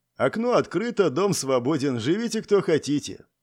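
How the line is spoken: Muttered. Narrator (Russian): пробурчал

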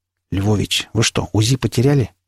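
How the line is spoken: Quiet question. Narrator (Russian): тихо спросил я

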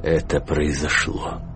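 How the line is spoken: Quiet voice. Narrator (Russian): тихим голосом сказал Караул

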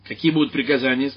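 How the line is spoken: Sharp question. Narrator (Russian): спросил он резко

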